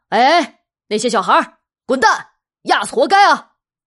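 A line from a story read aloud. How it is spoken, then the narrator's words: Shouting over loudspeaker. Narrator (Chinese): 有个大喇叭就开始喊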